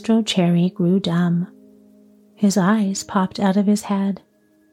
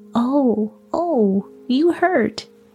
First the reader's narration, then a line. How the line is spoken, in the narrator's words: cried the same faraway little voice